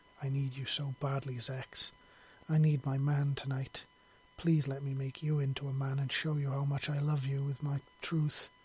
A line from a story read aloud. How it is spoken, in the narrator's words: she pleaded softly